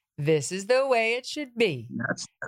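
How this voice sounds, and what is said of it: Margaret Thatcher impression. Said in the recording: “Margaret Thatcher said ... That's a pretty good impression.”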